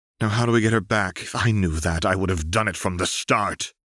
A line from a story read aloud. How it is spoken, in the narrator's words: Renata snarled